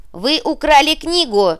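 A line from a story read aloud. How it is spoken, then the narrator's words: Stunned squeak. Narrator (Russian): пропищала ошарашенный Дикси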